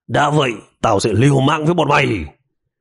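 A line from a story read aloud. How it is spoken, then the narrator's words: Resentful loud shout. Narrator (Vietnamese): Tên đồ tím đây vẫn uất trong lòng, cao giọng quát đàn em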